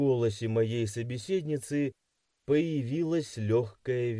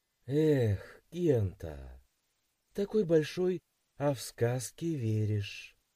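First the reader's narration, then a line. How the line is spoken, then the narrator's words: Sad smiling voice. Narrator (Russian): печально улыбнулась Янус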